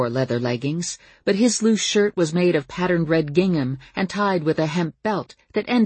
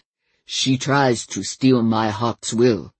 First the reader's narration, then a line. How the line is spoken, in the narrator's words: he said, his voice heavily accented